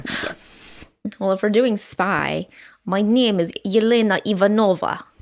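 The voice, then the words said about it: Put-on Russian accent, done well. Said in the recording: “Let's see how long you're going to hold that accent... you think I can't do Russian accent... you're good at it”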